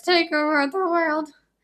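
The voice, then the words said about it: High-pitched villain character voice. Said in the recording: “Nefer's high voice. ... That's pretty good.”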